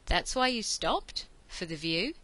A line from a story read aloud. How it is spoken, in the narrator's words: Ianto asked